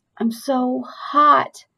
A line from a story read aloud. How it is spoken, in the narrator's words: he mumbled